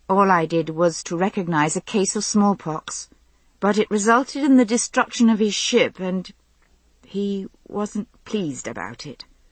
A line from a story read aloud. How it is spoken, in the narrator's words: I concluded weakly